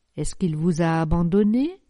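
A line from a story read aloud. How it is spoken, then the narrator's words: Plain. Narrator (French): demanda madame d'Alignac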